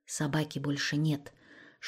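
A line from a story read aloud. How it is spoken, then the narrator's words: Whisper. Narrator (Russian): шепотом сообщила Екатерина Серапионовна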